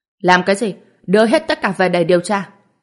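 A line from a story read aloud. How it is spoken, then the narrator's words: Sharp shout. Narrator (Vietnamese): lập tức quát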